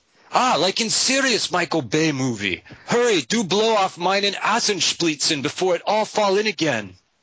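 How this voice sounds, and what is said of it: Put-on female Bulgarian accent. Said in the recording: “Bulgarian accent. ... And female.”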